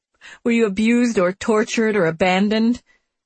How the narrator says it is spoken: He laughs again with his bone-chilling cackle

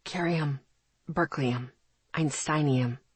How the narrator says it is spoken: he breathed

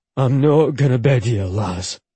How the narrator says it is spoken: he growled

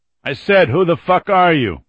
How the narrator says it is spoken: Billy called more loudly

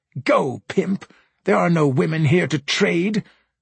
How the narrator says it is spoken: a demon cried

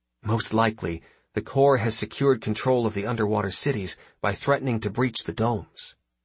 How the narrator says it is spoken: Vasilev half-whispered

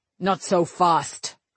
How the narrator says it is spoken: Cullen snapped

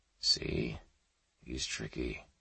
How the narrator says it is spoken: Sampson whispered, never at a loss

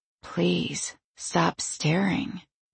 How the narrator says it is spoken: I whisper

